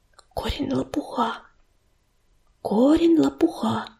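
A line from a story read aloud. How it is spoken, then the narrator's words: Whispering. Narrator (Russian): шептала она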